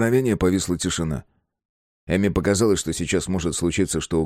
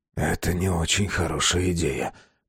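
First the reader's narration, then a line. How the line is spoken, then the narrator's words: Whisper. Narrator (Russian): прошептал Безил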